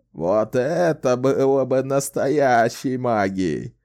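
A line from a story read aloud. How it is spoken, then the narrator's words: Old man chuckling. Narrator (Russian): хихикнул старик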